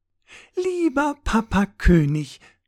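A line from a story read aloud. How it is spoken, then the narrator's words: Sugary sweet voice. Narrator (German): sagte sie mit zuckersüßer Stimme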